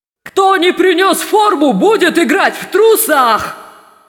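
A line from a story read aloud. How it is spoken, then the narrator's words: Shouted. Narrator (Russian): закричал Думинг Тупс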